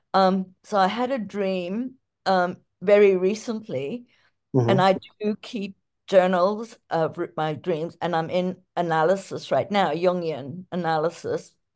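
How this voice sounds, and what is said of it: Mixed American and African accent. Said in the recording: “I'm from the US, but also from Africa, so the accent.”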